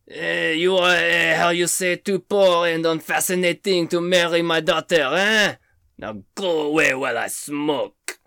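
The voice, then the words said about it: Put-on French accent. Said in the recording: “The only French woman I've ever met ... I'm pretty sure that accent is spot on.”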